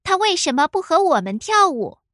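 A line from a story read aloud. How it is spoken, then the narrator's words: Angry girl yelling. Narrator (Chinese): 一个女孩愤怒的嚷嚷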